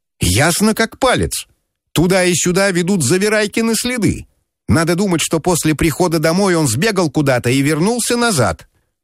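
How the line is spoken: Shout. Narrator (Russian): крикнул мне

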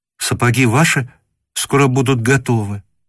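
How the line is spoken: Tender, slightly frightened female voice. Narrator (Russian): сказала она нежным и как бы слегка испуганным голосом

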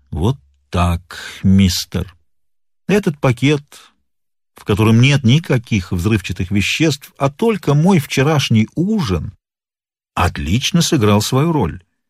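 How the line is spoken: Calm. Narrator (Russian): Сыщик начал спокойно говорить

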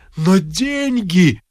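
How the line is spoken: Group groaning. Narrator (Russian): застонали васюкинцы

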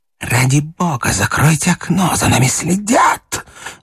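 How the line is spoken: Loud whisper. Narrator (Russian): громко прошептал Говядин, входя в столовую

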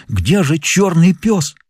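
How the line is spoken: Exclaimed. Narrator (Russian): лицо его исказилось, и он сделал усилие приподняться, воскликнув

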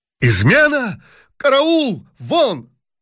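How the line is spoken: Emperor shouting. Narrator (Russian): закричал император

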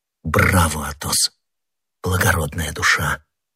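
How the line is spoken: Whisper. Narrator (Russian): прошептал Д'Артаньян

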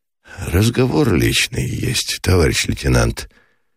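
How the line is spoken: Lazy reluctant speech. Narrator (Russian): лениво, без особой охоты проговорил Меженин

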